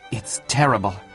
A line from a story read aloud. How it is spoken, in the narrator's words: muttered Tybalt